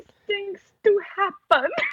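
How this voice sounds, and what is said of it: Carlotta impression, bad French accent. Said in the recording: “when she says, "These things do happen" in the worst French accent I've ever heard ... Yes, that's exactly how she sounds”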